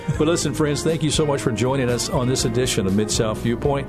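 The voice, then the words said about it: Polished radio announcer voice. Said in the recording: “I'm loving this radio voice you got, man. ... I'll have to turn it off when we get off the air”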